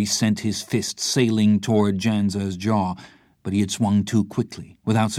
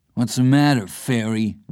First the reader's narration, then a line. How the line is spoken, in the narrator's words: Janza taunted